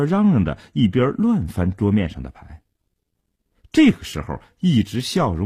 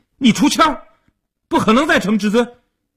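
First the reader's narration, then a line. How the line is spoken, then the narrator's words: Anxious loud shout. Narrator (Chinese): 阿生急了，大声地嚷道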